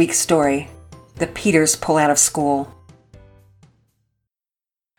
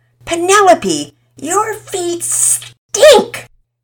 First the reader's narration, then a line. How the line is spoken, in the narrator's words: complained, plugging his nose dramatically